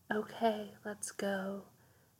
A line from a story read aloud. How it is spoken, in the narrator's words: she whispered to herself, trying to kid herself into believing she wasn't scared, only nervous